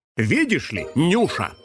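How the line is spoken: Smirking grunt. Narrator (Russian): хмыкнул он

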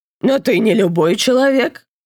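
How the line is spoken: Calm objection. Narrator (Russian): спокойно возразила Степанида

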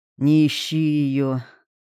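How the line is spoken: Low hoarse old voice. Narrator (Russian): Голос старика был низким, хриплым из-за дыма и чего-то еще

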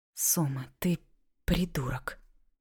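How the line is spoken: Whisper. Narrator (Russian): прошептала я

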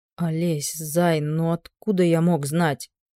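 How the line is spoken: Mumbling. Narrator (Russian): замямлил он

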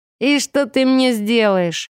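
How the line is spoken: Snort. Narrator (Russian): хмыкнул он

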